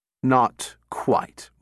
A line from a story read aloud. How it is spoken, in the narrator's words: replied Powell bitterly